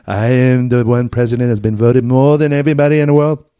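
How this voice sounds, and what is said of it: Donald Trump impression. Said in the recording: “Was that a good Trump? ... I'm doing an impression of Shane Gillis. ... Impression. Doing Trump.”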